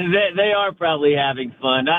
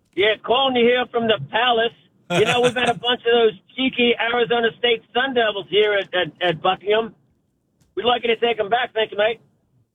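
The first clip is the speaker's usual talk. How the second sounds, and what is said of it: Put-on British or Australian accent. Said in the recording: “I don't know if that was a British accent or Australian, but that's the best I can do.”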